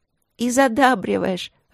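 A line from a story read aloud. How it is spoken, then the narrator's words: Laughing. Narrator (Russian): рассмеялась она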